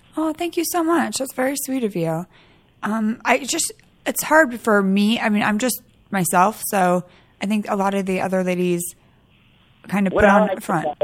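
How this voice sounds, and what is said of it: Sick-sounding voice, sore throat. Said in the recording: “I have a little cold, so I might sound a little different. But my throat it's getting better”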